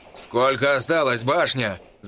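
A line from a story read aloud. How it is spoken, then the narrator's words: Shout. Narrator (Russian): Заметно отстав меньше, чем на полпути от Харла и посла Дроула, крикнул Мао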